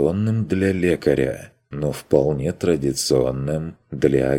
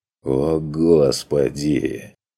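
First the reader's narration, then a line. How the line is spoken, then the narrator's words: Angry groan. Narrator (Russian): Простонал Курт зло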